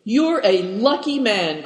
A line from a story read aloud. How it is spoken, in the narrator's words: cried Dampignac